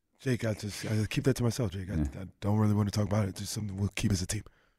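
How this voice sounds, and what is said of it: Fast staccato imitation of another's voice. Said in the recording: “that your Domas impression? ... He's talking fast enough, but the voice, the sound's not there, but he's talking fast enough. We got to work on the voice ... it's staccato. It comes at you quick.”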